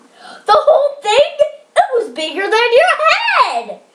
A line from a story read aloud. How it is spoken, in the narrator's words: exclaimed his uncle